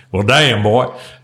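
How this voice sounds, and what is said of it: Put-on Southern accent. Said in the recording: “that's how I always go to the Southern accent.”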